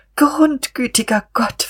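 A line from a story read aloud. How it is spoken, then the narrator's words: Whimpering. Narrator (German): wimmerte sie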